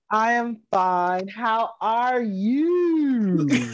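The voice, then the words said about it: Sing-song storybook delivery. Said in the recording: “You sound like a Dr. Seuss play.”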